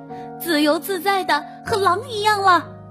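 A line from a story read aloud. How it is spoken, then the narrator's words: Shouting. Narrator (Chinese): 他大叫道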